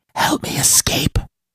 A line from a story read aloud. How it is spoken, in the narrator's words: whispered